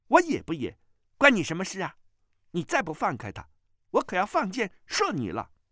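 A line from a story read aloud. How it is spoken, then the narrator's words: Angry. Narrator (Chinese): 穆婉清怒道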